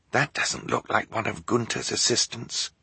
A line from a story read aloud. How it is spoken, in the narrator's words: Klaus whispered to his sisters